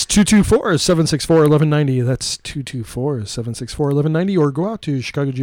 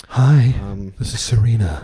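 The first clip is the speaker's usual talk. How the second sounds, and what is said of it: Sexy phone voice. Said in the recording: “do your sexy phone voice,”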